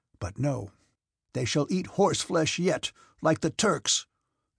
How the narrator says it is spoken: exclaimed Kutuzov

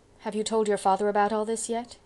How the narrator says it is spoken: asked Janet anxiously

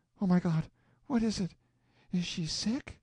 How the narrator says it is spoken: Suddenly she turned white and gasped out

